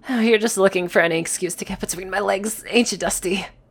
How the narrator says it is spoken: Sickle started to giggle and eventually mumbled

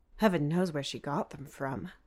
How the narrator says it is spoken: Dad mumbles under his breath

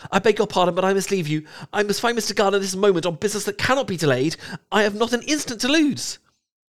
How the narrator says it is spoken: in whose mind every idea was superseded by Lydia's situation, hastily exclaimed

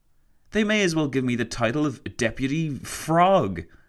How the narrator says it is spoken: he exclaimed to Roosevelt

